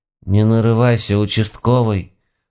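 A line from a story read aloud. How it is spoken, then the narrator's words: Sad grumbling old woman. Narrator (Russian): с глубокой печалью в голосе буркнула моя бабушка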